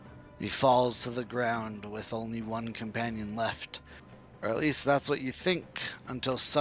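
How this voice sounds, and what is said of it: Usual voice. Nothing is said of it.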